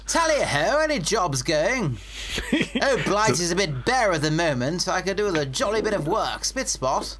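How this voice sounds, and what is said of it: Put-on posh old-fashioned English accent. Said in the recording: “that's our Norman accent”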